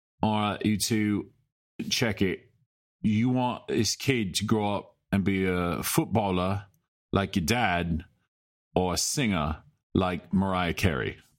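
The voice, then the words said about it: Put-on accent that fades out. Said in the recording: “It's a great accent, by the way. Like how it just disappeared at the very end.”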